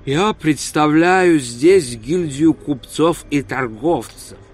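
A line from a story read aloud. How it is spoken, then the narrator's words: Calm reply. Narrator (Russian): спокойно ответил Реп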